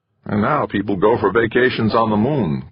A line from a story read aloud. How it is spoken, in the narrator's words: Kinnear murmured